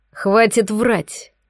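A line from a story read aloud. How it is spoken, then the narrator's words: Snarl. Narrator (Russian): рыкнул Лисовский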